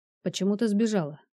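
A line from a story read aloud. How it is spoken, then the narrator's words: Plain. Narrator (Russian): спросил он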